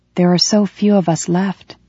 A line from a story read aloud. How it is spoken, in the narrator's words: she said in a sedate voice